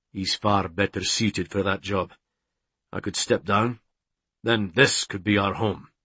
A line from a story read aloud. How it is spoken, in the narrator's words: he said in a gruff tone, insecure with this